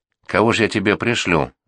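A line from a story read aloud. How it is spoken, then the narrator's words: Angry question. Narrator (Russian): зло спросил Гаврила Конюхов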